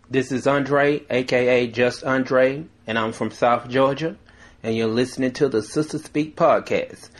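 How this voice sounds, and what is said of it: Southern US accent. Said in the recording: “I love your little southern accent.”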